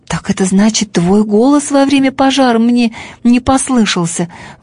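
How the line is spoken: Exclamation. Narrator (Russian): воскликнул Бим-бим

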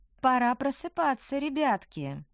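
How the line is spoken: Cooing under breath. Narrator (Russian): проворковала ведьма себе под нос

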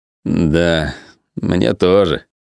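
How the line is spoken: Mumbled. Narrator (Russian): промямлил Зак

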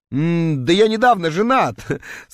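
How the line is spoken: Through laughter, clenched teeth. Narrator (Russian): сквозь смех процедил я

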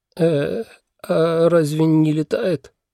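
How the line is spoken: Timid question. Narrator (Russian): робко спросил Олаф

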